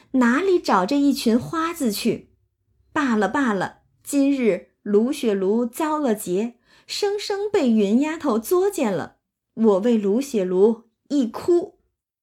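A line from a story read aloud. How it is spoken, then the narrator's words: Mocking, laughing. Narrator (Chinese): 黛玉就忍不住笑话他们说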